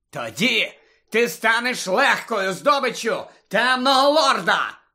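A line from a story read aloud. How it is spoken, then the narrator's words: Barked retort. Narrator (Ukrainian): гаркнув у відповідь Снейп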